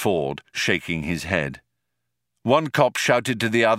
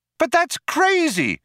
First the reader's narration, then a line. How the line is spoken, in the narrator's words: cried Trillian